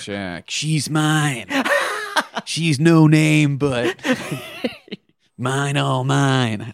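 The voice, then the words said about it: Deliberately bad imitation of another's voice. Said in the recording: “That's Jack Nicholson ... I know it's a bad impression. I want the listener to know that I don't think that it's good.”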